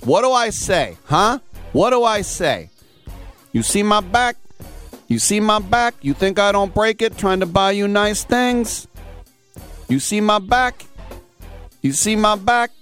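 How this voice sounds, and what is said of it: Put-on East Coast accent. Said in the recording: “I sound like a guy from the East Coast”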